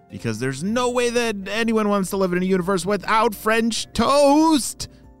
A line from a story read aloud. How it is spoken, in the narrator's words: shouted Oakley